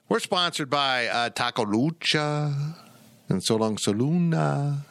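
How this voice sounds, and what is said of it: Bad put-on Spanish accent. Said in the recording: “It's the worst Spanish accent ever.”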